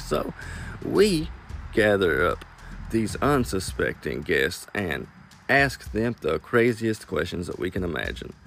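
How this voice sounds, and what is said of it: Southern drawl, Kentucky accent. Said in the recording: “Do you hear that southern drawl? ... I cannot turn it off ... I'm just a madman that came out of Kentucky”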